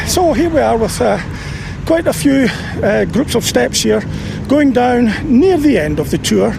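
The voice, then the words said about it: Slightly out of breath. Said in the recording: “I'm slightly out of breath”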